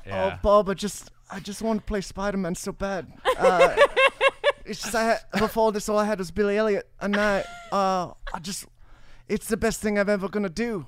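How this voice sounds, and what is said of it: Drunken imitation of another person's voice. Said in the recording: “best drunk Tom Holland impression”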